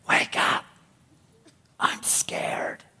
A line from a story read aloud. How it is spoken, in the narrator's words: whispered